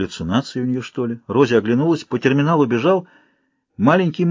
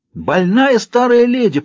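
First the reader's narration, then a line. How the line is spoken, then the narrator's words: Shrill scream. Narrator (Russian): пронзительно закричала Рози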